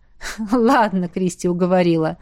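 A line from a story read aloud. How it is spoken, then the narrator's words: Joyless laugh. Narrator (Russian): рассмеялся Эл, но вышло как-то совсем невесело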